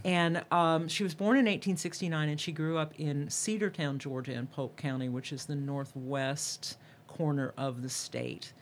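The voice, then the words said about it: Georgia Southern American accent. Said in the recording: “my Atlanta, my Georgia accent comes out”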